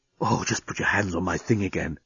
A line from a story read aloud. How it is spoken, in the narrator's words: he was whispering in her ear